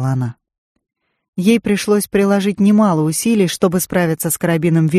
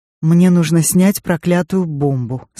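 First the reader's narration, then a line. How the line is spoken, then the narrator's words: Plain. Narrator (Russian): сказала она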